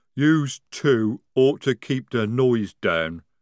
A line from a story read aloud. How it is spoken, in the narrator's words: rumbled Jade